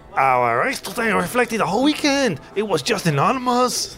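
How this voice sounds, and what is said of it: Impression of Fernando Alonso. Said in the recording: “Alonso said... Do you want to do an impression?”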